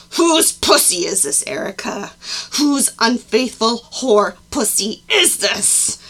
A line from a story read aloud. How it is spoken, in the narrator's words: he growled